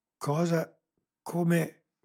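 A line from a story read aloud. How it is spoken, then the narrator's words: Stammered. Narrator (Italian): balbettò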